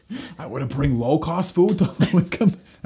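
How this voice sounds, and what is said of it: Imitates another person's voice, poorly. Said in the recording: “That's a terrible impression of him.”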